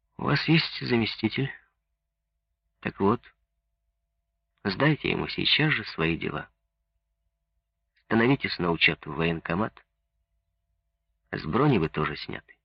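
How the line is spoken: Tired, dejected. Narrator (Russian): спрашивал устало и уныло

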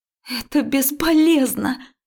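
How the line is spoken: Emotional woman's cry. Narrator (Russian): вскрикнула в эмоциях женщина

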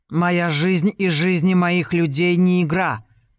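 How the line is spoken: Nearly growled. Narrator (Russian): практически прорычал Джулиан

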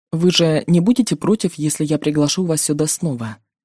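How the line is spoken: Quick, hurried speech. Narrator (Russian): предугадывая мой отказ, быстро заговорил

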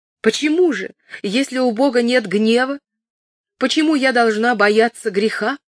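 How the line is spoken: Cry out. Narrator (Russian): Кэтрин вскрикнула

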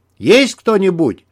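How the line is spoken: Yell. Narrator (Russian): заорал в открытую дверь Дмитрий

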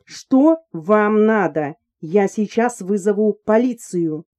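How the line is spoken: Loud and clear. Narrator (Russian): Она громко и четко произнесла

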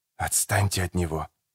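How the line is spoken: Hiss. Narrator (Russian): прошипел Родриго

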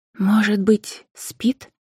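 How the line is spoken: Quiet question. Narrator (Russian): тихо спросила Анфиса у Макара

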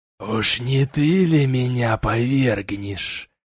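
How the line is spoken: Sarcastic rasp. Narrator (Russian): С сарказмом прохрипел я

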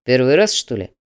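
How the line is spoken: Displeased growl. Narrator (Russian): недовольно зарычал Слановский

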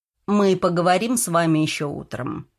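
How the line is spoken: Dry. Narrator (Russian): отреагировал сухо Ребров

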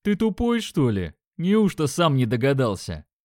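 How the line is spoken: Mocking deep voice. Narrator (Russian): насмешливо пробасил второй

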